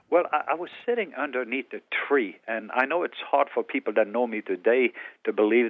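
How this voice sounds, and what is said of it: Norwegian accent. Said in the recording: “I was born in Norway on the southwest coast. That's why I have an accent.”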